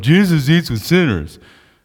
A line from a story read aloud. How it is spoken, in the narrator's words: the Pharisees grumbling